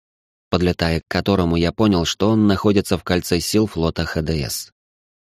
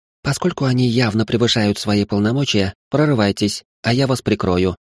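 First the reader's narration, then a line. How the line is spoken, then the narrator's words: Calm woman's remark. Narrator (Russian): спокойно заметила она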